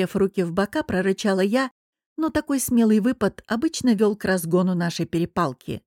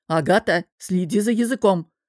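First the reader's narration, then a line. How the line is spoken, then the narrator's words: Barked. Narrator (Russian): рявкнул Олег Иванович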